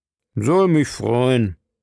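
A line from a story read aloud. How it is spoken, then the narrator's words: Doctor growling. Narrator (German): knurrte der Arzt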